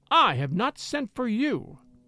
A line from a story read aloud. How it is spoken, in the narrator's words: she cried out vehemently